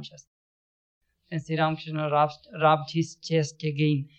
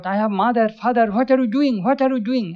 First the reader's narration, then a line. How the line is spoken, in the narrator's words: he cried out